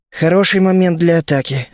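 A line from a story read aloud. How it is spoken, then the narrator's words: Sighing. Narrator (Russian): вздохнул я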